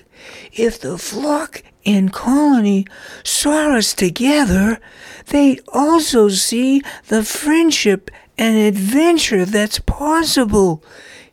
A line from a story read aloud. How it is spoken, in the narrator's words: he excitedly noted